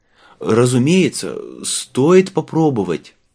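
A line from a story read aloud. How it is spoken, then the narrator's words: Strained forced words. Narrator (Russian): выдавил он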